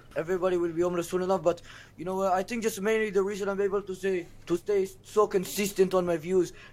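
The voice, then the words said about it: Speaks with an Israeli accent. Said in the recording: “A lot of people think this accent is fake, but it's not ... what accent is that? ... Israeli. ... It's an Israeli accent.”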